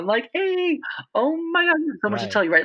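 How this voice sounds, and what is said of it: High-pitched excited voice. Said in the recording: “even right now, I'm in a high pitched voice because I'm getting so excited”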